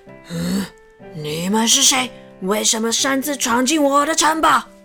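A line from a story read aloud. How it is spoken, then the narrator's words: Loud angry roar. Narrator (Chinese): 恶魔非常的生气，大声的怒吼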